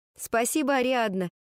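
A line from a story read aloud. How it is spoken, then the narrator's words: Laughing. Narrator (Russian): рассмеялась я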